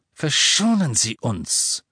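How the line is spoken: Hiss. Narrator (German): zischte Yorksley

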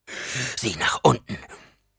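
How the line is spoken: Gasping. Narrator (German): keuchte Halleck

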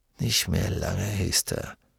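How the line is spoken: Murmuring. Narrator (German): murmelte er

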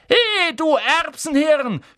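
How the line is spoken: Shout from across room. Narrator (German): schrie Ron von der anderen Seite des Raums

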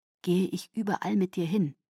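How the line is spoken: Quiet. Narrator (German): sagte Garrett leise zu Kate

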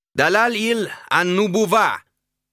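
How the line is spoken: Called out. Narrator (German): rief Al-Fali

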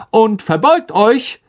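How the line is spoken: Calling out. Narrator (German): rief Lockhart

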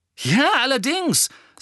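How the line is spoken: Angry. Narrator (German): sagte Ron zornig

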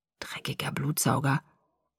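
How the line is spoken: Quiet forced mutter. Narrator (German): stieß er leise hervor

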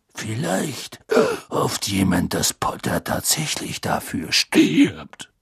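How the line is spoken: Faint growl. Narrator (German): sagte Moody mit kaum noch merklichem Knurren

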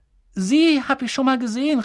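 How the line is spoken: Calling out. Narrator (German): rief Harry

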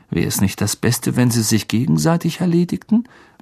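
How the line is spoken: Murmured into ear. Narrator (German): murmelte Ron Harry ins Ohr

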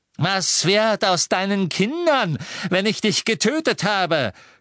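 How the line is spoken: Mad mocking. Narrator (German): spottete Bellatrix, wahnsinnig

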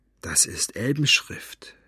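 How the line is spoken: Whisper. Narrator (German): flüsterte sie

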